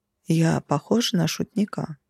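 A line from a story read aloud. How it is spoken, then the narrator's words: Icy calm, eerie. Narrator (Russian): спокойно поинтересовался он, но даже от этого ледяного спокойствия веяло какой-то нереальной жутью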